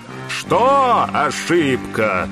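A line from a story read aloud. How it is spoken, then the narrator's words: Booming giantess voice. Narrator (Russian): Прогудел голос великанши, охранницы моста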